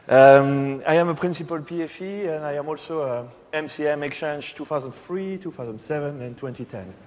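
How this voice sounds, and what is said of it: Strong French accent in English. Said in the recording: “I am a French PFE. You may guess that with my awful accent.”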